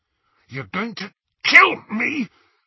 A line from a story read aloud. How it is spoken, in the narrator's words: Harry choked